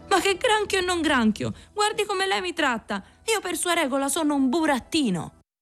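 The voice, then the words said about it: Resentful, offended tone. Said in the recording (Italian): “mortificato di sentirsi scambiare per un granchio, disse con accento risentito”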